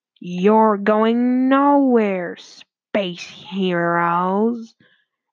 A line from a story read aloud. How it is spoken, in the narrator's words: growled the evil Dr